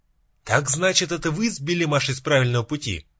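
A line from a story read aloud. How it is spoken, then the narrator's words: Shouted. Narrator (Russian): закричал я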